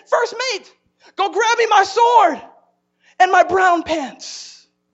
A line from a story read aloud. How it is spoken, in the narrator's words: the captain, he yelled to his first mate, he said